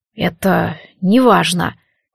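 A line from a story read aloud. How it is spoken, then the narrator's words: Hoarse voice. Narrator (Russian): хрипло сказал суаланец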